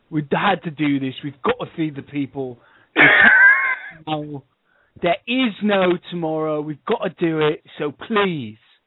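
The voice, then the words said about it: Exaggerated British accent impression. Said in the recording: “talking like Bob Geldof with like a ridiculous British accent”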